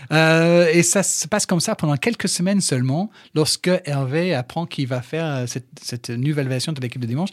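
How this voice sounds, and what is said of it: English accent speaking French. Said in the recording (French): “ton accent anglais ... les gens, ils vont entendre ton accent ... il y avait un petit truc déjà ... j'ai l'accent”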